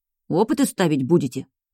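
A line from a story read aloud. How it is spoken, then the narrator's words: Amused grunt. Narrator (Russian): Диерти хмыкнул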